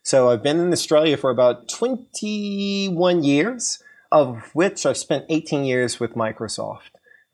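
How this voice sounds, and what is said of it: American accent. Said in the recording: “You can tell by my accent, even though I'm based in Australia, that I was born in the US.”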